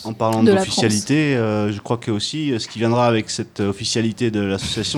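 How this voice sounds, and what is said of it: Southern French accent. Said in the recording (French): “Il y a un accent du sud qui ressort.”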